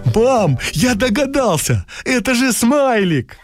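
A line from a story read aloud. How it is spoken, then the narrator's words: Joyful exclamation. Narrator (Russian): Кирюша радостно воскликнул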